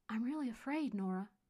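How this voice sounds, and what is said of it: Whispered line. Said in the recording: “Pierce's voice suddenly became a whisper.”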